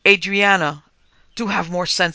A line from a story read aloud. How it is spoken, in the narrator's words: he cried